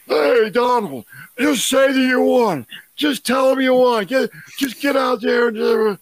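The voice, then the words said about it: Drunken, slurred imitation of another person. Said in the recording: “impersonation of a drunk Rudy Giuliani ... I thought you were going for Harry Carey”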